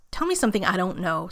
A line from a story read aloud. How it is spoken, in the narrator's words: Steve snaps